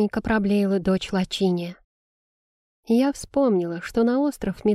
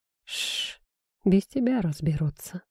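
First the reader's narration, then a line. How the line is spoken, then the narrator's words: Whispered in ear. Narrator (Russian): шепнул на ухо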